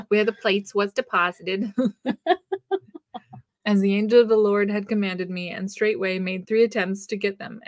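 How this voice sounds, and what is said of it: Put-on Joseph Smith accent. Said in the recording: “his accent's coming out... Joseph accent.”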